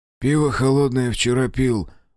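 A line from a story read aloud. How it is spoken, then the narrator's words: Deliberately hoarse grumble. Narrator (Russian): буркнул я, стараясь, чтобы голос звучал хрипло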